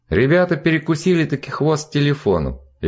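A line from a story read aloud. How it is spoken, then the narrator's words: Cheerful report. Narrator (Russian): весело доложил Жан Оливье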